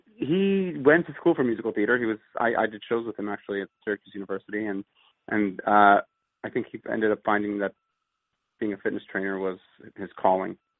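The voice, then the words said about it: Slight Pennsylvania regional accent. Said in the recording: “I hear a little bit of an accent. I don't know if Pennsylvanians had an accent”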